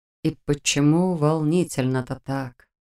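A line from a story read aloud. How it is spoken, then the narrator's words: Sighing. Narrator (Russian): вздохнул Роман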